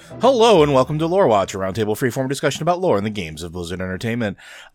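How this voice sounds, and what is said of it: Announcer-style radio voice. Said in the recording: “This is the radio voice.”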